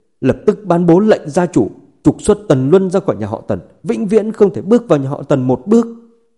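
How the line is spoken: Angry elderly shout. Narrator (Vietnamese): Ông cụ Tần vừa tỉnh, giận dữ hét lên

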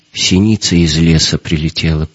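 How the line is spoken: Woman's dull, lifeless voice. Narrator (Russian): произнесла женщина каким-то потухшим голосом

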